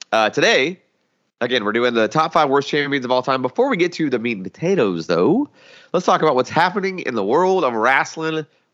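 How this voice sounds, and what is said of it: Congested, nasal voice. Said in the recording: “I like have the worst sinus infection. So if I sound like a little bit like Bert and Ernie over here, you're just going to have to forgive me ... the mold is just getting all of them in my sinus cavities”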